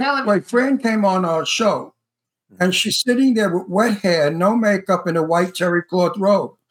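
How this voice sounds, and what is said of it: Usual voice. Nothing is said of it.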